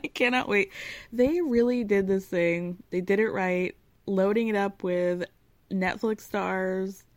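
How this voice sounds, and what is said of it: Excited voice. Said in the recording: “You can hear the excitement in my voice, can't you?”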